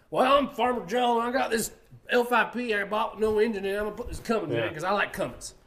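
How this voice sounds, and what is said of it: Put-on Southern accent. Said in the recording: “Southern accents”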